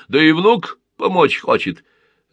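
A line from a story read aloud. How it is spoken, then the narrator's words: Laughing. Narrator (Russian): Рассмеялся Мария Матвеевна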